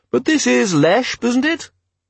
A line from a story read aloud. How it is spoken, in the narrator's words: it said in a tinny yet polite voice